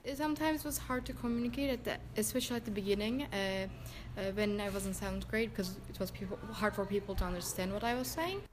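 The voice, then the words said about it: Turkish accent. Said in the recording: “has a Turkish accent.”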